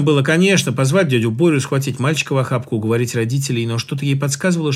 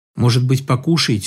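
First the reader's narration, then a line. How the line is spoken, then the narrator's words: Timid mother. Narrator (Russian): робко спросила мать мальчика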